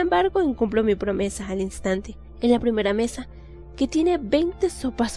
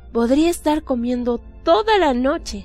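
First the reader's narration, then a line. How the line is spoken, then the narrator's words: Exclaimed. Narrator (Spanish): exclamo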